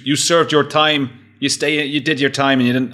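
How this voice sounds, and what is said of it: Gangster Sopranos accent drifting Irish. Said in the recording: “I, don't know what accent that was. It went sort of Irish, but ... gang, gangster American Sopranos.”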